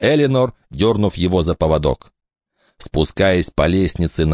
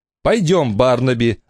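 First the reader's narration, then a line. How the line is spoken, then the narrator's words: Irritated urging. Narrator (Russian): раздраженно поторопила его Элинор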